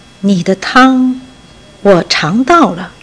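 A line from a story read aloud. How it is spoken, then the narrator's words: Soft, slow fatherly voice. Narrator (Chinese): 父亲轻声慢慢地说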